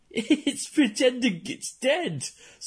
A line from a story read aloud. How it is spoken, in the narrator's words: Savushkin laughed